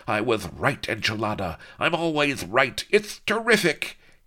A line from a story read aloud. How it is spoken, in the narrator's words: He screamed with crazy laughter, slobbering